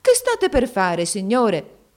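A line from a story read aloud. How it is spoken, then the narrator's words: Mother exclaiming. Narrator (Italian): La madre di Nureddin esclamò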